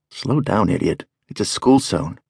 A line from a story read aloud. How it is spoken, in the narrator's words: I mutter